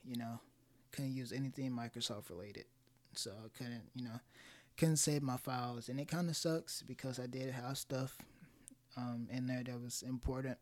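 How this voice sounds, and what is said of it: Voice not yet warmed up. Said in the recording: “Sorry about my voice, by the way. ... my vocal cords are like getting warmed up still.”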